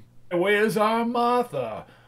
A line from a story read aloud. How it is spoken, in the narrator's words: cried Bob Cratchit